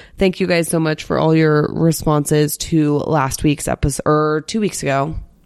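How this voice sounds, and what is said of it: Voice sounds off from illness. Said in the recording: “does my voice sound a little messed up? Because I've been sick”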